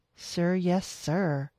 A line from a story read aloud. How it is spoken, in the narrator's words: said sarcastically